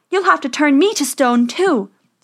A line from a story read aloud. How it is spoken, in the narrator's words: Snow White cried